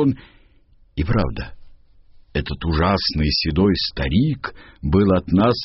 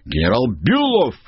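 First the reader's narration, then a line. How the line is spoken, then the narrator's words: Shouted. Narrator (Russian): крикнул я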